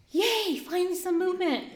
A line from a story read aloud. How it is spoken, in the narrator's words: I scream